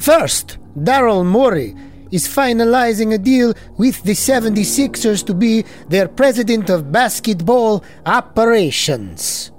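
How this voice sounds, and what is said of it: Put-on Eastern European vampire accent. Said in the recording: “That's a vampire accent. ... I'm trying to do like Eastern European Romanian Dracula. ... it's not very scary, spooky, or scary.”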